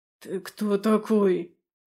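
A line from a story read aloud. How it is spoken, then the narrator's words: Hoarse gasp. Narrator (Russian): хрипло выдохнул Андаим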